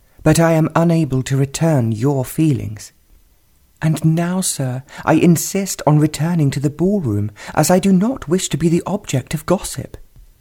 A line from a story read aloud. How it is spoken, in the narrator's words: said firmly